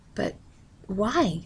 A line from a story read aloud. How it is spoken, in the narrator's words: Mother asked nervously